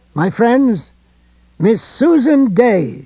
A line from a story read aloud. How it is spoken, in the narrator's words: she cried